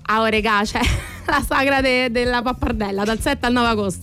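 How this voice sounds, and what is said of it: Put-on Roman dialect accent. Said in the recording (Italian): “dovresti fare lo spot in romanesco ... Vai, romanesco, vai.”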